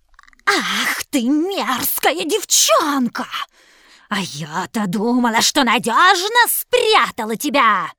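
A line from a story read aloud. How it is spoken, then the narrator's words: Hissing, witch. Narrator (Russian): зашипела колдунья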